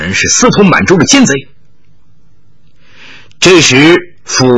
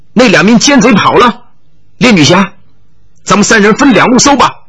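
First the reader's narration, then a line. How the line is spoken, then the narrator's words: Calling out. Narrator (Chinese): 王兆熙叫道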